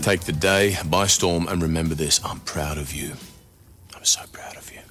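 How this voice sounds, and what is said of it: Australian accent, appealing voice. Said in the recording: “Australians do have the best... Oh my God, the greatest voice... Accent.”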